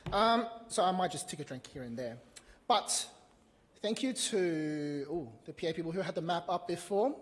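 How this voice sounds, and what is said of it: Slightly strained, failing voice. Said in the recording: “I think I'm losing my voice a little bit.”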